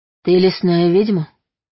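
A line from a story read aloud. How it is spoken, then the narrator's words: Hoarse, unused voice. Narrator (Russian): Собственный голос показался чужим, прозвучал хрипло, будто я не пользовалась им много лет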